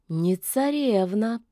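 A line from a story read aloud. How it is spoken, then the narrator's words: Drawled. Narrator (Russian): протянула девица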